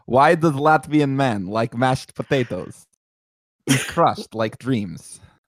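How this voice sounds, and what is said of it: Borat-like put-on accent. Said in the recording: “Why does it sound like Borat?”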